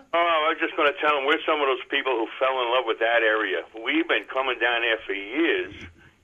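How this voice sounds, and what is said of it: Brooklyn New York accent. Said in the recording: “I never lose my New York accent ... It's not New York, it's Brooklyn.”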